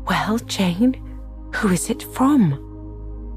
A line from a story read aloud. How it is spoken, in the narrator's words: cried Mrs